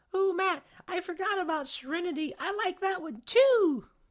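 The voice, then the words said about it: Imitation of his sister's voice. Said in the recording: “my sister, which I guess I'm going to have to do the voice again”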